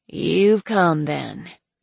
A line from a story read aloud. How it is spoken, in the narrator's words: she said hoarsely